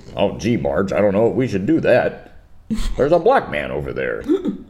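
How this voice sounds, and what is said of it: Stereotypical white guy voice. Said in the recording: “they do the white guy voice”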